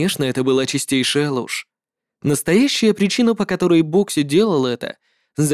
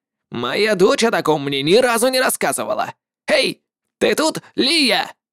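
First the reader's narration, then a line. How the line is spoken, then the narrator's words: Shouted. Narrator (Russian): крикнул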